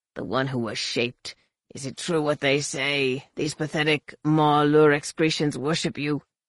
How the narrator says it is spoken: snarled

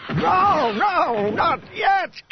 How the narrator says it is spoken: came a howling voice that Han recognized as Morath Duel's

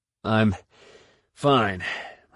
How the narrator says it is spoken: Han panted

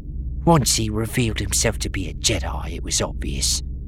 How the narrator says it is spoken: said with a sneer

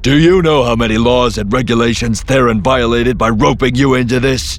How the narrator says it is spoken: He shouted at her

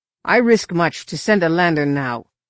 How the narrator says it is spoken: Choka grunted

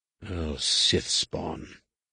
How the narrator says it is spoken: muttered under his breath

